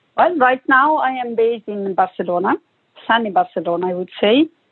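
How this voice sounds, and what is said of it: Italian accent. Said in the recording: “I'm from Italy, as you can, you know, already spot from my accent.”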